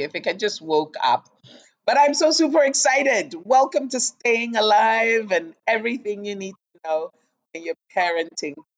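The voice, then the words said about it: Raspy, just-woke-up voice. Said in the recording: “my voice sounds so raspy.”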